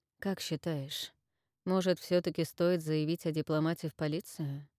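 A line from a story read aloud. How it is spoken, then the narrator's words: Quiet question. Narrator (Russian): Тихо спросил Марс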